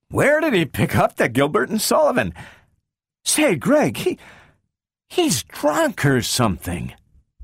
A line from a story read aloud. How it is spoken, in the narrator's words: Donovan said weakly